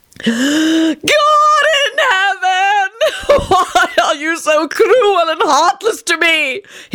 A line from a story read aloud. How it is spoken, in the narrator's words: he howled